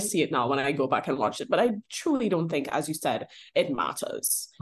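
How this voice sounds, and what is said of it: Charming accent. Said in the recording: “you have an accent and your accent is charming to me”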